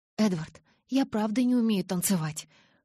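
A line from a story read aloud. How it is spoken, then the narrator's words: Hoarse frightened babble. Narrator (Russian): хрипло пролепетала я, чувствуя, как страх ледяными клещами сжимает сердце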